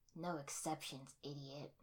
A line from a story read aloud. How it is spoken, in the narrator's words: Sasuke scoffed